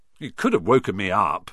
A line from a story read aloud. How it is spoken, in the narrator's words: said Ron, crossly